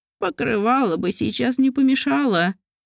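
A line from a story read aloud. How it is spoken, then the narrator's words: Glum old man, squealing. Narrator (Russian): уныло произнес старик и визжался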